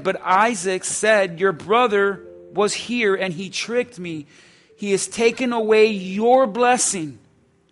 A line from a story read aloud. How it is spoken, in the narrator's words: Esau exclaimed